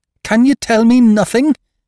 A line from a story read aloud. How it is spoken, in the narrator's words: he cried